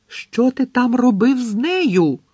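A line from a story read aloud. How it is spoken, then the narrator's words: Shrieked. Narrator (Ukrainian): заверещала Лаванда Браун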